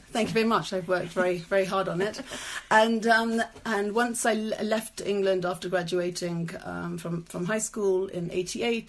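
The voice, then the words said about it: British London accent. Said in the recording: “Love the accent.”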